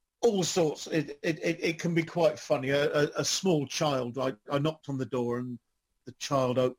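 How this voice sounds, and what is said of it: Usual voice. Nothing is said of it.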